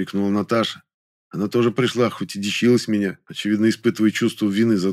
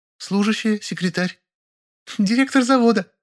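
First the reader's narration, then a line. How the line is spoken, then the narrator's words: Giggling. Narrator (Russian): хихикнула Кореглазка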